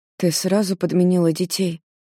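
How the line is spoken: Hoarse question. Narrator (Russian): сипло спрашивает Диана

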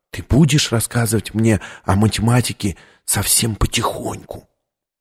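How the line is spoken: Whispered. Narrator (Russian): Виктория прошептала

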